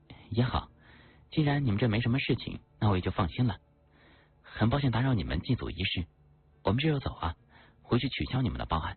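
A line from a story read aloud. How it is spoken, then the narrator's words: Sincere laughing. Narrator (Chinese): 竟然还能笑得出来，而且笑得没有一点虚伪做作的味道，和贾老说道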